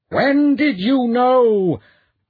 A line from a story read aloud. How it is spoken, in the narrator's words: Poel screamed at him